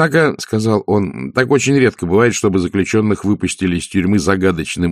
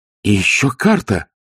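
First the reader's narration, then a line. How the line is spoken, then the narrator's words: Exclamation. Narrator (Russian): воскликнула Махаон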